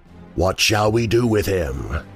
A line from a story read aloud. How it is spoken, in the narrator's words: it growled